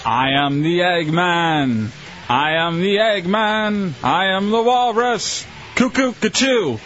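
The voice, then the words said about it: Sung impression of a band. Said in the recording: “impersonation ... The Beatles”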